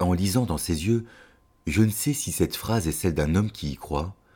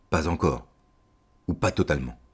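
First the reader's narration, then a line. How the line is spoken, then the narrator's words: Almost whispered reply. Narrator (French): Marx répond, presque à voix basse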